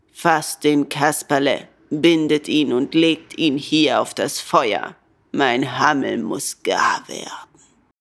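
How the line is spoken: Rough voice. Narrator (German): Mit rauer Stimme sagte der Direktor

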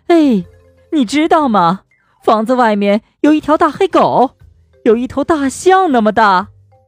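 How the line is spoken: Frightened shout. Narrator (Chinese): 她也吓坏了 喊道

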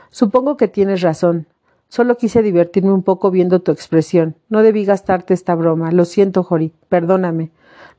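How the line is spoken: Halting admission. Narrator (Spanish): admitió con voz entrecortada

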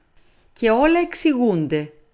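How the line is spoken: Kindly exclamation. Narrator (Greek): αναφώνησε καλοσυνάτα ο Πουαρό

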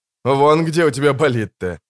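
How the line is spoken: Laughing. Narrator (Russian): засмеялся Корин

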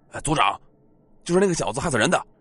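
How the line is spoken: Shouting. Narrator (Chinese): 有人对其中一个老者喊道

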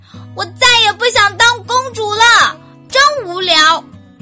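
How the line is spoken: Loud shout. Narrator (Chinese): 伊莎大声喊道

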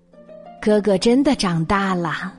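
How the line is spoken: Happy exclamation. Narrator (Chinese): 熊爸爸开心的感叹

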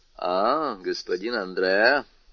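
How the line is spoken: Half-mocking tone. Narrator (Russian): сказал тот своим обычным полунасмешливым тоном

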